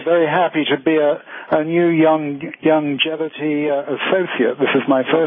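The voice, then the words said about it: Slight British accent. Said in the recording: “you have a little bit of a British accent there”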